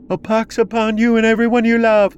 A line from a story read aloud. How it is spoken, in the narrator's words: another woman screamed out